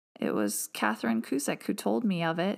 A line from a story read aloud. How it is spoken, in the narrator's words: he said in a crackling voice